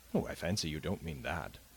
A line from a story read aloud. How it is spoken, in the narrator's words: said Lord Lambeth, laughing